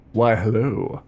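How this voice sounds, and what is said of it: Sexy, seductive voice. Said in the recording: “I have a sexy voice as well.”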